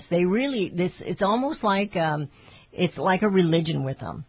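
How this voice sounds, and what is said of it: AOC impression. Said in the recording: “that's my AOC impersonation. She always says, it's like you know”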